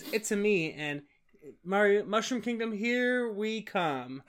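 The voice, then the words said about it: Imitates another person's voice. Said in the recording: “Chris Pratt's Mario voice ... I feel like I just nailed that impression.”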